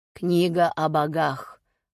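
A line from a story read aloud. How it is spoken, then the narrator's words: Dismissive snort. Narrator (Russian): хмыкнул хранитель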